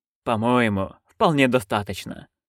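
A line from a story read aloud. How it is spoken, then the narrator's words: Calm remark. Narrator (Russian): спокойно заметил Хью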